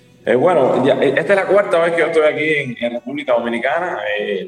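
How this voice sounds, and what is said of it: Cuban Spanish accent. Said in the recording (Spanish): “por tu acento, ya lo mencionaste, Cuba”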